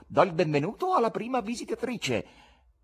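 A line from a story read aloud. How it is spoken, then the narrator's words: Exclaimed. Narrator (Italian): esclamò Fagotto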